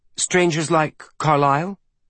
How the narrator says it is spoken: Bridger asked

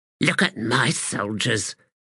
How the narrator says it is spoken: she said under her breath

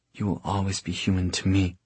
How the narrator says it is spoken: whispered

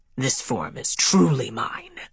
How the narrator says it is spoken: he growled

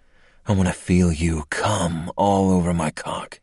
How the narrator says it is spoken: he rasped

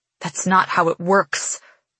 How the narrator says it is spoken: hiss back

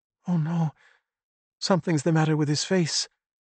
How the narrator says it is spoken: Elisabetta moaned

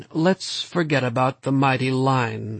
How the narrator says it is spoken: Stoner said wearily

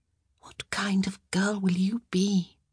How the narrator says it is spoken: She whispered

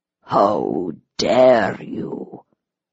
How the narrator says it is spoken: Her voice was low, controlled, and furious

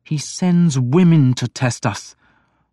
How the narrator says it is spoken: the young man said harshly

